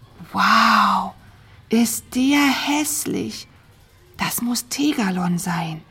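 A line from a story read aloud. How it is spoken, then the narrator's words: Whisper. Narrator (German): flüsterte Tina Mira zu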